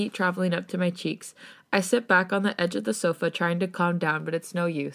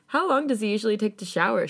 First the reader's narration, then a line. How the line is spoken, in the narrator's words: She laughs